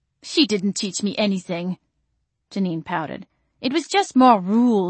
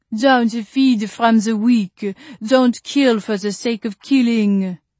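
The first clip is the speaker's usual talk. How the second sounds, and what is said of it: Heavy French accent. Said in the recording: “mimicking a heavy French accent”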